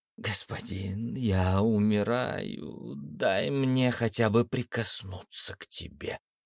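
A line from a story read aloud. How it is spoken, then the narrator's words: Tragic plea. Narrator (Russian): трагическим голосом попросила Геката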